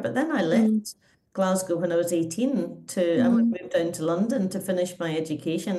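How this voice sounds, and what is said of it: Softened, slightly posh Scottish accent. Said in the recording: “I've retained any Scottish accent ... I can hear it as clear as day ... it is a bit posh and no one can place it”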